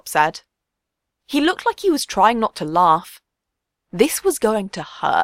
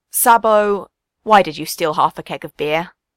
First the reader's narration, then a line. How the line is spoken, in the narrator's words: Ben sighed